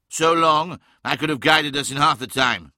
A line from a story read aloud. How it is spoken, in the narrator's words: cried Magnus, glaring at the recumbent form of the navigator